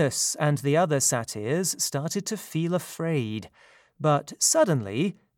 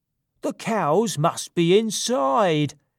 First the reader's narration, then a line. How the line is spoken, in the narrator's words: the satyrs shouted angrily